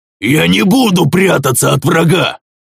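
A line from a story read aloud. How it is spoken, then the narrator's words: Defiant roar, wild man. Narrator (Russian): взревел строптивый дикий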